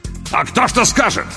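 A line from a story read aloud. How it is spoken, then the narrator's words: Sudden near-bark. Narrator (Russian): Вдруг почти рявкнул Лопату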